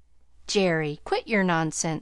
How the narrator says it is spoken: he cried vexedly

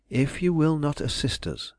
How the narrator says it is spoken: I went on calmly but determinedly

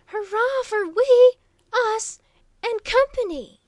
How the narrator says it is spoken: cried Waldo, relieving his lungs of a portion of their pent-up energy

